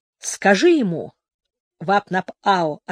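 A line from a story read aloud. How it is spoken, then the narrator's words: Plain. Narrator (Russian): ответил отец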